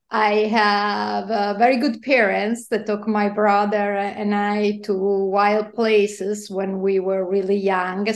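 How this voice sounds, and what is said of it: Italian accent. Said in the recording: “as you can probably guess from my accent, yes, I was born in Italy”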